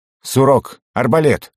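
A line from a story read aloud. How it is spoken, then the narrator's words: Harsh bark. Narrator (Russian): рявкнул я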